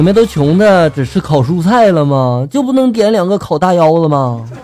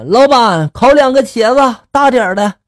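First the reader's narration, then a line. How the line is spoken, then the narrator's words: Loud shout. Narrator (Chinese): 我大声的就喊了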